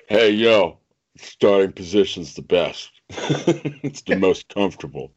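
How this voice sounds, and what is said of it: Imitates another person's voice. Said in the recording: “my horrible Stallone reference. I'm done with that accent.”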